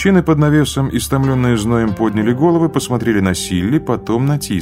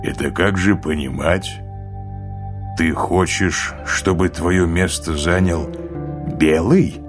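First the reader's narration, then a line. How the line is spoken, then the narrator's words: Cold question. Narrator (Russian): холодно спросил Тис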